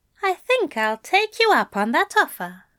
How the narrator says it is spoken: Aziraphale said

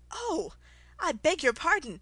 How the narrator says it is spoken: she exclaimed in a tone of great dismay

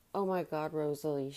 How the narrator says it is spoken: she said

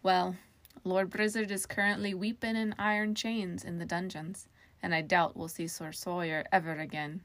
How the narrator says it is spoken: Jerry said

